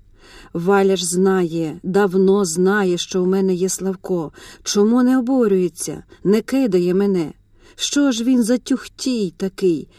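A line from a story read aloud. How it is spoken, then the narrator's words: Calm musing. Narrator (Ukrainian): Розмірковувала спокійно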